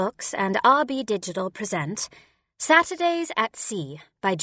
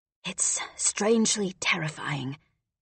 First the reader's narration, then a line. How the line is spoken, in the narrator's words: Rolf whispered